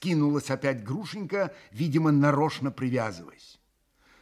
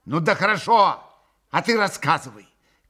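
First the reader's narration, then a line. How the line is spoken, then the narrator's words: Shouted. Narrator (Russian): крикнула Грушенька Максиму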